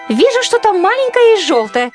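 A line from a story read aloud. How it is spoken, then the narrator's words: Shouting from above. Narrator (Russian): прокричала она с высоты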